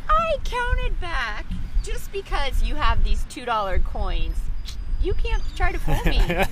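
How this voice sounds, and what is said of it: Non-local accent. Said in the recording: “the woman hears my accent”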